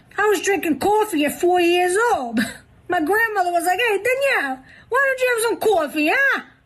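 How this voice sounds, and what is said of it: Strong New York accent. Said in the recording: “New York accent contest ... best New York accent”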